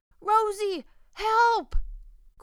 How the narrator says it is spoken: cried Captain Awesome

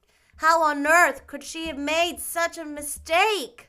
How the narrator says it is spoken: wailed Diana

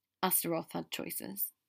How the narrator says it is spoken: Theo said evenly

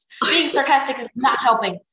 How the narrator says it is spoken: Tsunami snapped at her

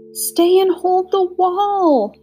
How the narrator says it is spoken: she begged

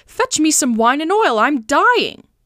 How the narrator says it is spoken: he cried to Pangloss

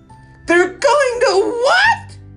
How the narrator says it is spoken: screamed Wilbur

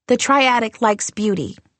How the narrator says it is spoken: said

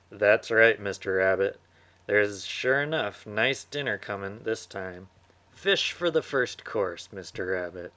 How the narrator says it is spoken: Dog laughed and called back

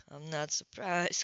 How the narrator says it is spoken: Coltrane murmured

